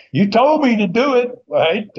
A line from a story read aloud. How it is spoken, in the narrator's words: hollering back at Spears